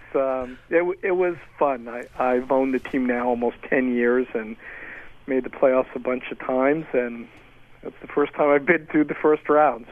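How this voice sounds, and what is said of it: Hoarse voice. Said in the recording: “You can hear in my voice I was pretty hoarse.”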